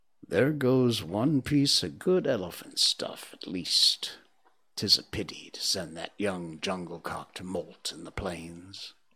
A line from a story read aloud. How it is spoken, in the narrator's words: Machua Appa, the head tracker, said in an undertone to a friend of his